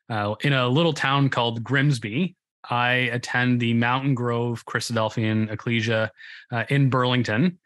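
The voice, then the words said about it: Canadian English accent. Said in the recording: “You can probably tell by the Canadian accent”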